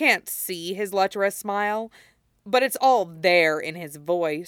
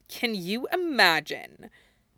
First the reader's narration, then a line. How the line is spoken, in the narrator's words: Malfoy responds with a scoff